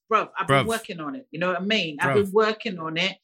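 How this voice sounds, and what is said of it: Put-on British accent. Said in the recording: “I'm working on my accent? ... I'm determined to, like, play a British person in a film one day. ... You got it really good, though.”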